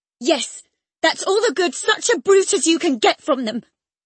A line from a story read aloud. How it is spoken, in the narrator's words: cried Catherine, sucking her damaged lip and watching the conflagration with indignant eyes